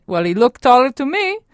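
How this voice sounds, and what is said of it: Imitated Italian accent. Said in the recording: “in her classic Italian accent”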